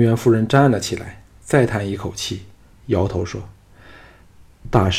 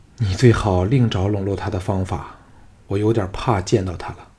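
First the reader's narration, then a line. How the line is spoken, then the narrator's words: Long, wistful sigh. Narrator (Chinese): 平原夫人悠悠地叹了一口气，说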